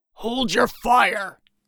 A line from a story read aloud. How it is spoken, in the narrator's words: Bulwark roared